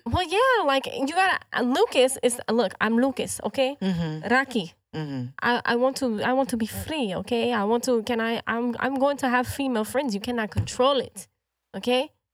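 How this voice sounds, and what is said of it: Slight put-on accent, unclear origin. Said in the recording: “my accent is changing just a little bit ... I don't know where it's from.”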